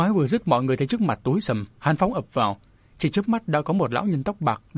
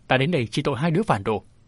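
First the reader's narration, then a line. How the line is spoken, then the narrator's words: Cold old man. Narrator (Vietnamese): Tuyết Hồn lão nhân lạnh lùng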